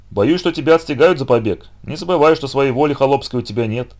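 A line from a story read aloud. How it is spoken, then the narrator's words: Plain. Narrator (Russian): сказал Филатыч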